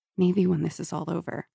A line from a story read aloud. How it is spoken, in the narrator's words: She went on in a low voice